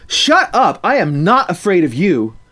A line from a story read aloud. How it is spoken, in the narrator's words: angrily shouting